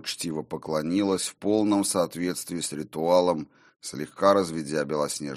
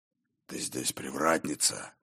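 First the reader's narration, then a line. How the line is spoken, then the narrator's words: Near growl, not angry. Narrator (Russian): Почти прорычал он, но не от гнева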